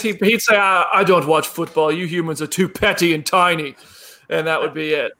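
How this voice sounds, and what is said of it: Thor impression. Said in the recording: “My Thor impression. That was a better impression than your Tom Holland impression.”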